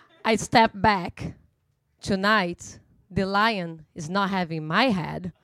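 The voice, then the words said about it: Russian-accented English. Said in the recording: “my Russian accent of unknown origins”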